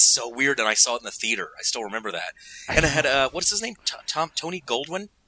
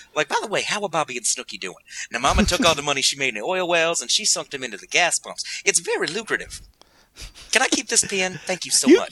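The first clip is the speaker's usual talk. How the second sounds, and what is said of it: Comic heavyset Black woman character voice. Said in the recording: “You sound like Eddie Murphy. ... That's my fat black lady impression, which is just Eddie Murphy.”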